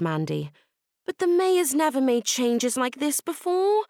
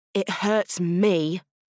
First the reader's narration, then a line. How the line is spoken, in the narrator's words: growled JJ